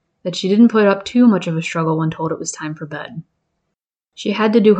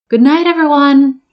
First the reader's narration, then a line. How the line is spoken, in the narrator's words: shouted at the top of her lungs